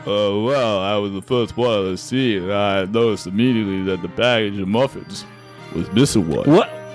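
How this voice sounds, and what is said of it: Cop voice imitating Sylvester Stallone. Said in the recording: “doing the voice of the cop ... Why do you sound like Sylvester Stallone? ... Stallone was in Copland”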